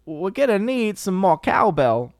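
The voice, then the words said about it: Poor Christopher Walken impression. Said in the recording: “Christopher Walken ... It's probably a terrible impression”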